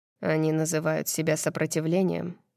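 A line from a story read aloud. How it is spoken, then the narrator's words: Low, even, private voice. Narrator (Russian): говорит он низким и ровным голосом, рассчитывая, что его услышу только я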